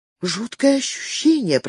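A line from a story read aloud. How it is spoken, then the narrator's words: Whisper. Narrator (Russian): прошептала Женевьева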